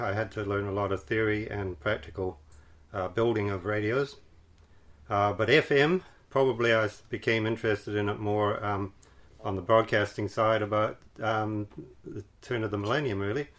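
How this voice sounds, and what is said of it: Canadian accent with Scottish, Kiwi traces. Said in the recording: “not purely a Canadian accent, is it? ... a bit of Scottish as well ... and a bit of Kiwi as well”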